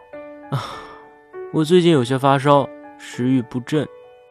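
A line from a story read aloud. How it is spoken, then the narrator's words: Sighing. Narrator (Chinese): 叹了口气道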